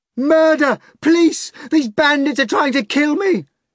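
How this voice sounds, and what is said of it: Screamed character line. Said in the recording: “screamed in pure Russian, without a trace of accent”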